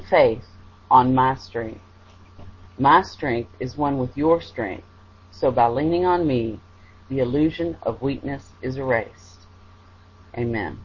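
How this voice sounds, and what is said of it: American Southern Kentucky accent. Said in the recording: “your accent. I think it's Kentucky, isn't that correct? ... Texas or Oklahoma, they are asking. Yes, Kentucky.”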